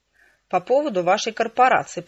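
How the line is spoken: Growled. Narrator (Russian): прорычала я

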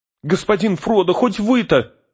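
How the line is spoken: Horrified shout. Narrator (Russian): в ужасе выкрикнул Сэм

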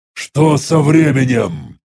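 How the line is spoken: Irritated growl. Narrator (Russian): раздраженно прорычал я

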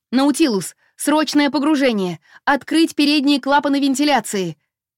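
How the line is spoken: Shouted. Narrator (Russian): крикнула

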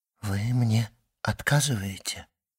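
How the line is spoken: Trembling voice. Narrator (Russian): сказала Мерседес дрогнувшим голосом

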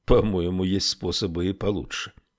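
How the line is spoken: Sullen mutter. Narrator (Russian): угрюмо буркнул Эрвин

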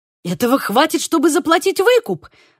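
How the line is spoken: Exclamation. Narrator (Russian): воскликнул Диего

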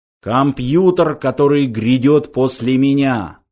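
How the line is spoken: Solemn shrill announcement. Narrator (Russian): торжественно объявил пронзительный интеллектомат

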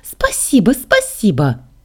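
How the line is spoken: Excited squeal. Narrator (Russian): завизжала Саша

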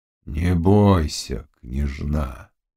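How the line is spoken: Low, sad voice. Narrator (Russian): сказал низким, печальным голосом

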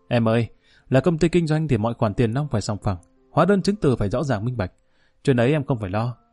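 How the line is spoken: Laughing. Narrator (Vietnamese): Quý bật cười

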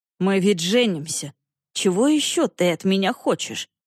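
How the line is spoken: Cold inquiry. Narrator (Russian): холодно осведомился Корт

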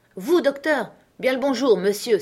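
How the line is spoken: Exclaimed, wide awake and affable. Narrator (French): s'écria Silver, déjà réveillé complètement et rayonnant d'affabilité

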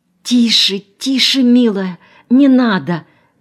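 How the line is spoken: Frightened whisper. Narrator (Russian): испуганно зашептала Фроловская

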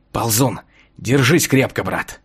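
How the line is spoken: Whispering. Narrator (Russian): шепнуть

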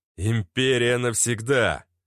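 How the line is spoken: Growled. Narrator (Russian): рыкнул я

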